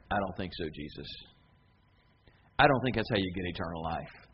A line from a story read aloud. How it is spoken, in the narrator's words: the crowd murmuring